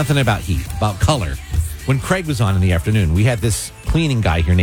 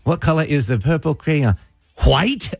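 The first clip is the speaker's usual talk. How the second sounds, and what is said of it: Imitated accent. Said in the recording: “He had this accent.”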